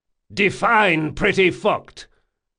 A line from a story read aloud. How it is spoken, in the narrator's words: he yelled